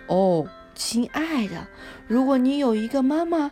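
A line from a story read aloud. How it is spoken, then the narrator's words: Sighing. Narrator (Chinese): 她叹了一口气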